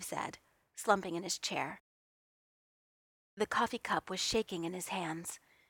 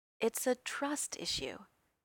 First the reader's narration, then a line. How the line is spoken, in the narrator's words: he said, his voice unexpectedly kind